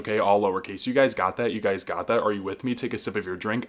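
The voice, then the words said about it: Hyper, very fast speech. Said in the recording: “I'm really hyper. ... I'm talking too fast.”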